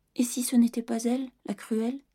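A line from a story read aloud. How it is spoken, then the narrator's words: Whimpering, upset. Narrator (French): pleurnicha Sophie, qui aimait beaucoup sa bonne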